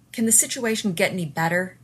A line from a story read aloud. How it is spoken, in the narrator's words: Rodney snarled